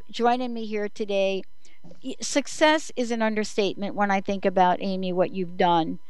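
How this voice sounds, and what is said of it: New York accent. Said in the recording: “my little New York accent”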